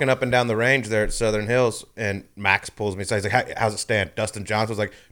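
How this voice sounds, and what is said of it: Usual voice. Nothing is said of it.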